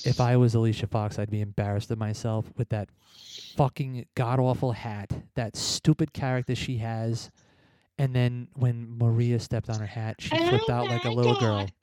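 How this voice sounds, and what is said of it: Serious dramatic voice. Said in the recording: “talking in my serious dramatic voice”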